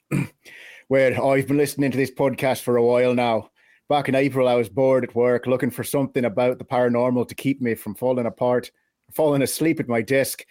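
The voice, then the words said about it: Put-on Irish accent. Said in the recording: “agreed to do it in an Irish accent ... hit us with the Irish ... I'll see what I can do with an Irish accent.”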